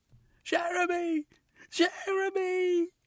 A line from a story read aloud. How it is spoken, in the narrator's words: she screamed